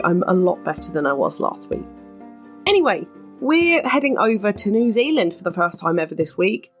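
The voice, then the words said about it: Congested, snotty-sounding voice. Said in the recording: “I have slightly recovered from my sinus infection. You can probably still hear it in my voice, I'm still a bit snotty”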